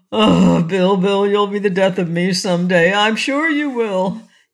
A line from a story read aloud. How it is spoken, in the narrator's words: gasped the king, for as he often did, he had laughed until the tears came